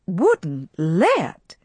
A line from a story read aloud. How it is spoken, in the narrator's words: she cried indignantly